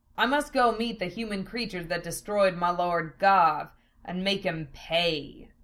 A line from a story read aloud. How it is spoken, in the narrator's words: Val growled